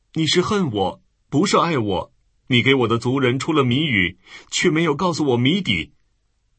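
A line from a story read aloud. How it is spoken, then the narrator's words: Tearful complaint. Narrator (Chinese): 参孙的妻子向他哭诉说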